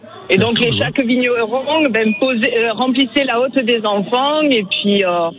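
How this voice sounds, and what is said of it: Slight southern French accent. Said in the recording (French): “Il y a un petit accent du sud ... De Perpignan”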